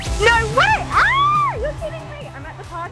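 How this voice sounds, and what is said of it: Excited screaming. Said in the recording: “and I'm screaming.”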